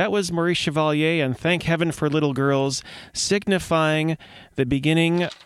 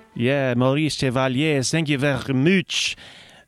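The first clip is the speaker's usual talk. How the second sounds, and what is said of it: Bad put-on French accent. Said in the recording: “I salute you with the worst French accent in the whole of the city”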